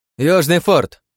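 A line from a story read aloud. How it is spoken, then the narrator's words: Shouting man. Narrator (Russian): зачем-то закричал японец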